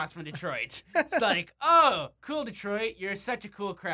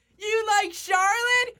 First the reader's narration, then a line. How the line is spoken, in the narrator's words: Natalya, when she had Charlotte in a rest hold, shouted at Detroit